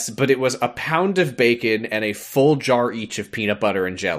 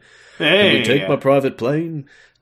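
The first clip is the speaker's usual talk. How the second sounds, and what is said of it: Imitates another person's voice. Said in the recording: “my Elvis impression”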